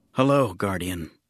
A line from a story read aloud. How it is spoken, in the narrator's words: Jinsler said, trying to keep his voice calm